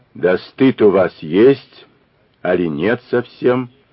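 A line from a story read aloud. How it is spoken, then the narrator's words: Quiet. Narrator (Russian): тихо сказала она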